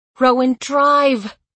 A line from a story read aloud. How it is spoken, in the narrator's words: I yelled